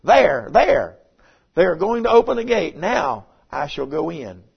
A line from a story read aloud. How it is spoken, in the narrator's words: she exclaimed